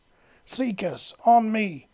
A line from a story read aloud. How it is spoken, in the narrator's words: roared